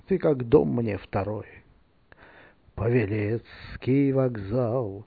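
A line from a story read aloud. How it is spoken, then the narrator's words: Quiet yet carrying. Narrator (Russian): Кто-то тихо сказал, но услышал весь зал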